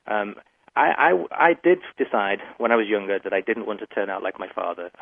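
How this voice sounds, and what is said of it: Working-class English accent. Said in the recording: “my accent identifies me in England as working class”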